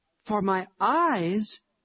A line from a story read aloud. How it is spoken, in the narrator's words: exclaimed Harry, very much astonished